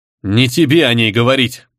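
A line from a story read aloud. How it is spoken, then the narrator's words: Lovesick creature growling. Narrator (Russian): прорычал влюбленный чуд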